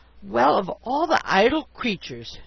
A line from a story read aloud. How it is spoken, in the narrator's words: she exclaimed, she gave a sniff